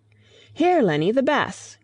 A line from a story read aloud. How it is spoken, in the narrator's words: cried Mrs